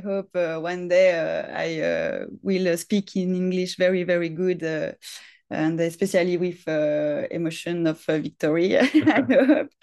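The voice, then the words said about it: French-accented English. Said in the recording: “my French accent and my bad level of English”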